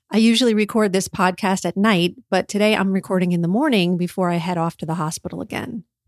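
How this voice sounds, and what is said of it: Tired-sounding voice. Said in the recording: “You can probably hear in my voice that I'm a little tired.”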